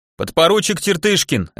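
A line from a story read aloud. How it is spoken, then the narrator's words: Bark. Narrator (Russian): рявкнул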